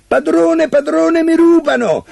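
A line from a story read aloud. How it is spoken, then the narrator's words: Shouting harp. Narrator (Italian): l'arpa si mise a gridare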